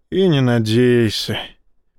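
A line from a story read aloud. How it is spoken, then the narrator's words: Sad. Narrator (Russian): печально сказал один из телохранителей Рашина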